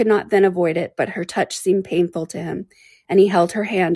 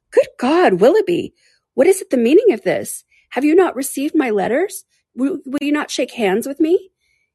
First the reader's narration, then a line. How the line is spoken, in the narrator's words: she exclaimed in a voice of the greatest emotion